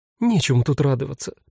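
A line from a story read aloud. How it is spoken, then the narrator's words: Sad. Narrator (Russian): печально ответила она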